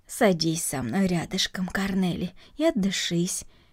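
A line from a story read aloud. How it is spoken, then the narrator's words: Calm. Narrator (Russian): спокойно произнесла Марта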